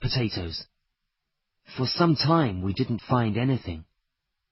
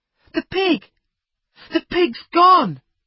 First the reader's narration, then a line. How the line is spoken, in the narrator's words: Jack cried